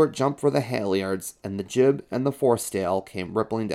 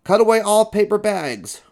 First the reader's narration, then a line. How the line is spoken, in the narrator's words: roared the owner